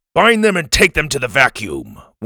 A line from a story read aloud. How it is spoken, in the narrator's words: one of the guards barked